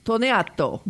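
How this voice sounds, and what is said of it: Put-on Italian accent. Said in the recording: “my Italian accent. ... Very good.”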